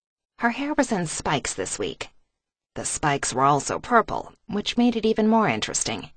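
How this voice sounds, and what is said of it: Usual voice. Nothing is said of it.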